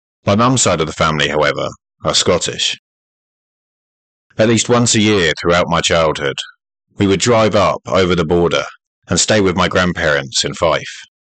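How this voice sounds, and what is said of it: English accent. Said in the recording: “I am, as you can probably guess by my accent, from England.”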